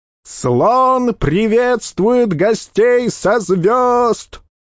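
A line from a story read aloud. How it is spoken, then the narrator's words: Puny herald yelling. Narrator (Russian): Орал тщедушный, тощий, как глист, глашатый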